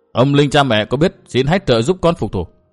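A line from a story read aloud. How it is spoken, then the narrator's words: Thin, cold smile. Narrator (Vietnamese): Nguyên Bình cười nhạt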